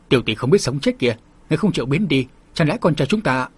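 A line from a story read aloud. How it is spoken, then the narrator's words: Angry shout. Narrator (Vietnamese): tên đạo sĩ này thân phận không nhỏ, thấy Hồng Phong nương tử có thái độ khinh thị như vậy, liền nổi giận quát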